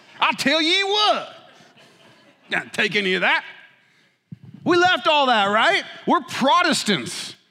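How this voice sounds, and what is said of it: Put-on Southern US accent. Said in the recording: “I'm using like a Southern accent now”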